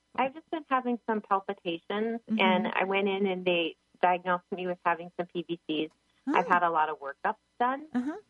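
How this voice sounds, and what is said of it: Minnesota accent. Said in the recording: “I love the Minnesota accent”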